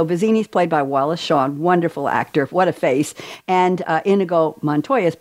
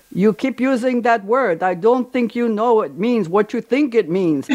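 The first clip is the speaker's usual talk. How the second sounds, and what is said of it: Bad imitation of a film character's accent. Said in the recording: “I think I botched that one ... the bad Mandy Patinkin Inigo Montoya accent.”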